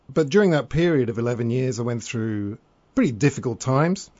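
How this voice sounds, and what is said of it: British accent. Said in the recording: “that was back in the UK, as you can probably tell from my accent.”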